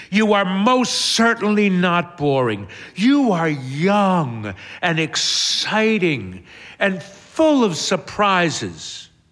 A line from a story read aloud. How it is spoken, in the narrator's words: Hermione exclaims